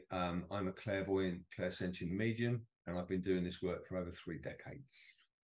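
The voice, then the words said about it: British accent. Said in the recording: “You probably gather from my accent, I'm not from California. I'm from the UK.”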